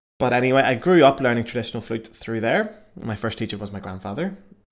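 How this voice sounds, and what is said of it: Northern Irish accent. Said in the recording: “I am not American or British or I am European... the lovely accent... I'm from Belfast in the north of Ireland.”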